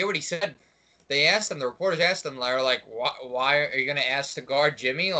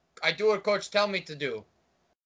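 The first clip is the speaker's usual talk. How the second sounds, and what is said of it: Bad Greek-accented impression. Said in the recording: “That's a terrible Greek impersonation of him.”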